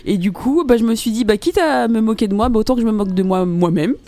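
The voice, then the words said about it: Parisian French accent. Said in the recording (French): “j'ai quand même mon accent parisien. ... Parigot, ... de titi parisienne”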